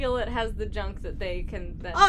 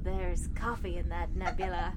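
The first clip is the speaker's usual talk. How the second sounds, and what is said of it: Buzzy impression of Captain Janeway. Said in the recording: “Your Janeway impression always freaks me out in a good way... It's like having a beehive talk at you.”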